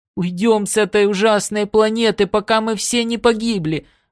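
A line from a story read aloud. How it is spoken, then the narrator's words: Sobbing. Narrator (Russian): рыдала она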